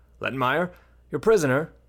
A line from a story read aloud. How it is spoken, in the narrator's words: the lieutenant hollered